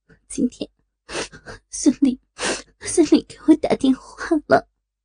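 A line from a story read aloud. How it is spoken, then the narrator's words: Choked, sobbing. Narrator (Chinese): 老婆哽咽着说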